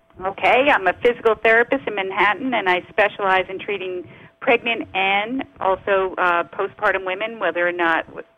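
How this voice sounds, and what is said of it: New York accent. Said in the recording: “we're still here in New York City. That's my accent.”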